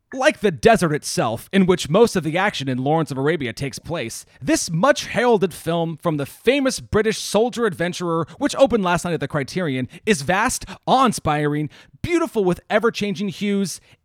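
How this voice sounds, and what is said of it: Silly put-on reading voice. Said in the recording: “I'll read it in the stupid voice that I do”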